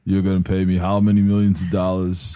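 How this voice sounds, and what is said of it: Flat, inflectionless Vin Diesel impression. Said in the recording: “Vin Diesel's more just, like, he can't even, like, put any inflection in his voice”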